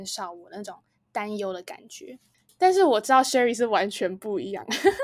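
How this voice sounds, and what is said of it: Usual voice. Nothing is said of it.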